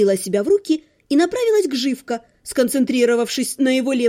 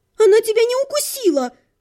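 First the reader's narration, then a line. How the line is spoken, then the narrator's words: Exclamation. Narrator (Russian): воскликнула я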